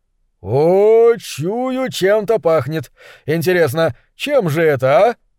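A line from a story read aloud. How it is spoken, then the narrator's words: Exclaiming, feigning not hearing. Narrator (Russian): воскликнул он, точно и не слышал меня вовсе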